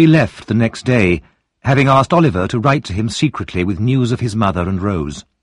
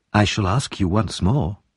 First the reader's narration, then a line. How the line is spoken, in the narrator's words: said Harry softly